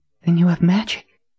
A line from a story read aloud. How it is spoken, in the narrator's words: Nadine breathed